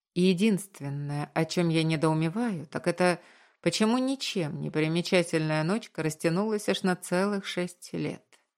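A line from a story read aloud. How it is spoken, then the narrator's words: Calm retort, suppressed anger. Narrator (Russian): подавив в себе гнев, спокойно парировал я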